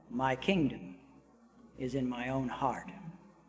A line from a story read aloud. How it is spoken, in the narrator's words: the beggar answered quietly